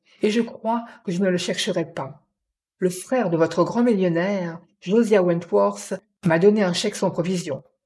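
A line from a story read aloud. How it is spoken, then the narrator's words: Sharp cutting voice. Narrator (French): dit Jim d'une voix tranchante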